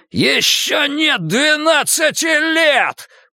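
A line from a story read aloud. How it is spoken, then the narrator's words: Shouted. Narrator (Russian): прокричал он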